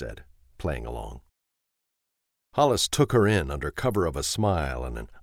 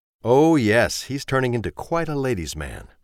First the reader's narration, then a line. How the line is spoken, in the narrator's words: said Miss Daly